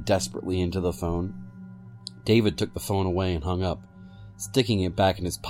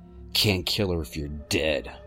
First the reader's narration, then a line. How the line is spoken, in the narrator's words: I growled